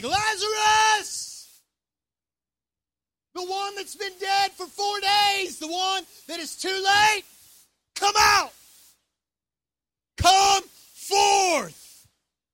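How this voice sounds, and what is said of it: Yelling loudly. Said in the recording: “Jesus said in a loud voice, so I'm going to yell a little bit”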